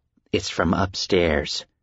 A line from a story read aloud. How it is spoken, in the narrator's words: he said quietly, calmly, his voice even and thick with the indifference of sleepiness